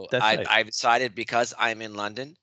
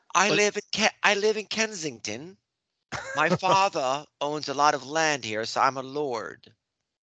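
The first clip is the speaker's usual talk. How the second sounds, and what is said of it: Unconvincing put-on posh English accent. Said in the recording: “I am going to speak to, for the length of this podcast, with an English accent. ... Maybe the Central Jersey London accent.”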